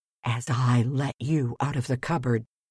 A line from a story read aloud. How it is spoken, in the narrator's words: whispered the farmer